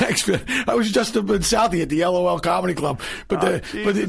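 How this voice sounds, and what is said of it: Usual voice. Nothing is said of it.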